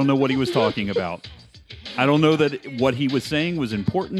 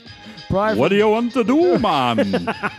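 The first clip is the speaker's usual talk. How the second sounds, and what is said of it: Exaggerated Jamaican accent. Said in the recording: “A horrible Jamaican accent... Horrible.”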